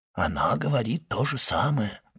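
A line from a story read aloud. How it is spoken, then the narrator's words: Whispered. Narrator (Russian): прошептал ювелир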